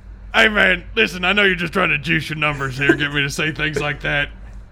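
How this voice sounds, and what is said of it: Imitates another person's voice. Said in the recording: “your impression”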